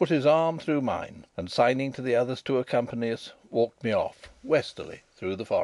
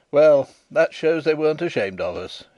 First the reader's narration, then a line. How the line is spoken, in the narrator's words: he laughed